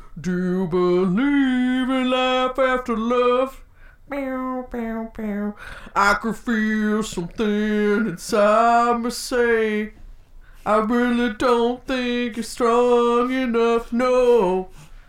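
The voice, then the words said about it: Imitates another person's singing voice. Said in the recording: “my Cher impression”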